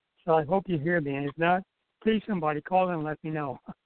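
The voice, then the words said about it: Hoarse voice. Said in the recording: “my throat is really kind of hoarse today”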